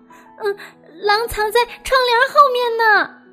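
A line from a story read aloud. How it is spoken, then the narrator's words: Shouting. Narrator (Chinese): 他又喊道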